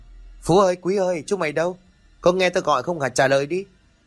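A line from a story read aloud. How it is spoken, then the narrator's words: Straining loud shout. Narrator (Vietnamese): Cố gắng lấy hết sức bình sinh, An liền hét to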